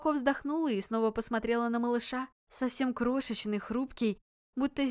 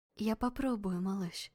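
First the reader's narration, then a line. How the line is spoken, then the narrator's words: Quiet mutter. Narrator (Russian): тихо пробормотала я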